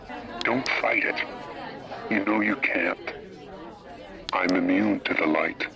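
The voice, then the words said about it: American accent, hard R's. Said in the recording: “there is no flippin' way that's a British accent ... He was very hard on his R's. And no, that is not a British accent. That is a Yankee accent for sure.”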